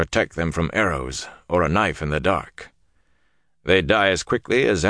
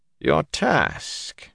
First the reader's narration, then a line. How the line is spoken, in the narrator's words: Niall said, his voice rising